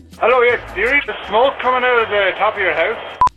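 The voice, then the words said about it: Really strong accent. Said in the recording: “he's got a really strong accent”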